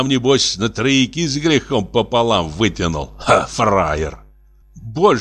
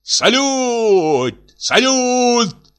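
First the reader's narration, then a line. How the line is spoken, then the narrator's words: Cheerful shout. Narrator (Russian): Весело закричал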